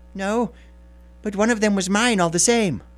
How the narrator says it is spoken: whined the little man

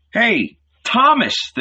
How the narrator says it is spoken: the disciples shouted

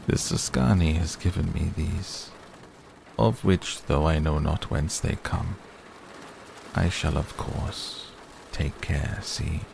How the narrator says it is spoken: said in his smoothest voice

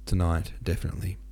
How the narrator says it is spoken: he replied quietly

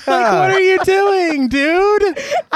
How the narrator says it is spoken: I laughed alone

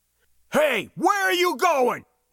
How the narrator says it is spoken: He shouted

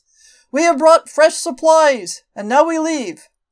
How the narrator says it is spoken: Billy cupped his hands and shouted across the green fields

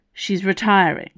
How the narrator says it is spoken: Icarus said firmly

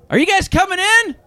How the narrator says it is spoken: Somebody shouts from behind the bar

